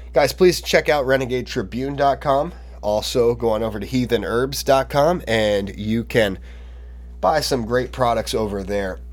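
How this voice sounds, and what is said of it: Voice sounds unwell, rough. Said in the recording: “my voice just not sounding that good for a little while ... it also could be allergies”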